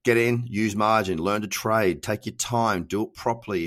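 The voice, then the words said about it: Nasal congested voice, Australian accent. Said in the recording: “somebody who is nasally, who's got a cold, who's got an Australian accent”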